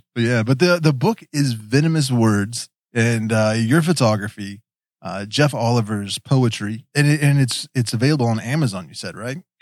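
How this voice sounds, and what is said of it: Appalachian West Virginia accent. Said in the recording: “I'm a hillbilly from West Virginia. We've got an accent. ... the Appalachian pronunciation”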